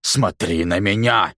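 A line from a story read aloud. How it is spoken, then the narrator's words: Coach growling. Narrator (Russian): рычал тренер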